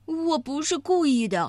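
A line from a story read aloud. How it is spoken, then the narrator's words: Sighing. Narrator (Chinese): 艾迪熊叹了口气说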